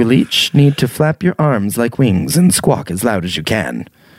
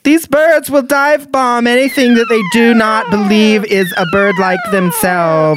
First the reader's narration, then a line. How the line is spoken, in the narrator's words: my wife's friend yells out